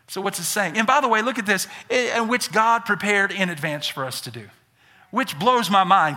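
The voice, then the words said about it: Southern US accent. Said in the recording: “born and raised in Birmingham, Alabama. I'm a Southerner. I got some accent.”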